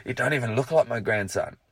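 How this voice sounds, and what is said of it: Scottish accent. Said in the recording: “Notice I've ejected the Scottish accent.”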